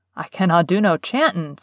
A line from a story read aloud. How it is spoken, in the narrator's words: said Ben Weatherstaff a trifle testily